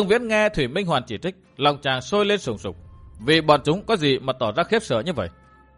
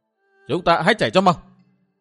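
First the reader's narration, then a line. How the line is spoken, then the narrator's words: Sudden loud shout. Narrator (Vietnamese): Thủy Minh Hoàn bỗng hét to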